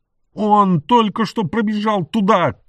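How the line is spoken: Breathless shout. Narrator (Russian): крикнула Вирджиния, задыхаясь

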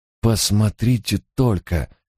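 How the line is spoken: Breathless exclamation. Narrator (Russian): выдохнул мой помощник

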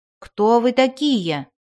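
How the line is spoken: Shouted. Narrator (Russian): закричал он

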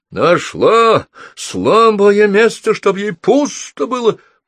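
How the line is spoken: Shouting while rushing. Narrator (Russian): прокричал он, проносясь по комнате

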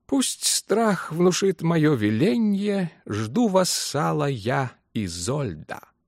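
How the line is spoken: Purring to himself. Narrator (Russian): Он промурлыкал про себя

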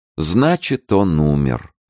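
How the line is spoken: Saddened, with doubtful notes. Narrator (Russian): повторила герцогиня опечаленным тоном, который, несомненно, мог бы обрадовать королеву, если бы в нем не слышались нотки сомнения

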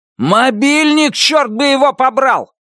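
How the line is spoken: Shout. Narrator (Russian): закричал он

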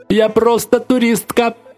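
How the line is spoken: Drunken shout. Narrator (Russian): чей-то пьяный голос выкрикнул

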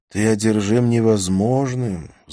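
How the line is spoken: Sighing. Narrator (Russian): вздохнул я

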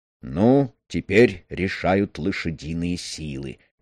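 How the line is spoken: Mumbling. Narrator (Russian): пробормотал Стормер

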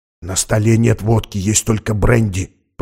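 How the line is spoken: Whisper. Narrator (Russian): прошептал Макс через секунду

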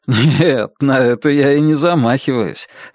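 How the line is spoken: Laughing. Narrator (Russian): рассмеялся Алан

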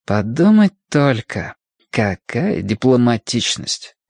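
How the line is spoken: Spoken through teeth. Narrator (Russian): процедила она

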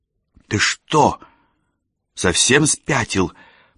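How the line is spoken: Hissed into ear. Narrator (Russian): прошипела она мне прямо в ухо

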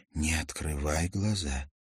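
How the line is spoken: Whispered in ear. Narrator (Russian): прошептала на ухо

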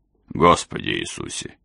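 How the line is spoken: Muttered. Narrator (Russian): пробормотала Келли

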